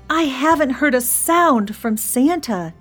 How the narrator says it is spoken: he moaned

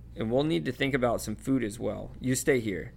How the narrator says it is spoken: he added sharply

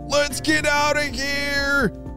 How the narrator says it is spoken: yelled Enzo

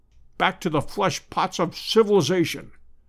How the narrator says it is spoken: groaned Challenger

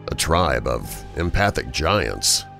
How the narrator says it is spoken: the inspector said

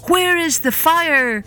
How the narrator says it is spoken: cried

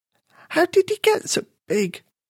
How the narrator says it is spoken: croaked Petra

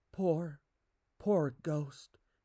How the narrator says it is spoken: she murmured

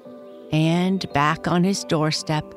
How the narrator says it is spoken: Johnny Chuck chuckled to himself, for he was happy

